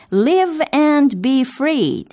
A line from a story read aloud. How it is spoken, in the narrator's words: they cried